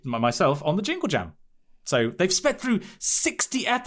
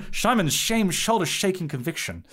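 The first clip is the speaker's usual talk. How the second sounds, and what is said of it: Bad Sean Connery impression. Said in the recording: “It's like a very, very bad Sean Connery impression.”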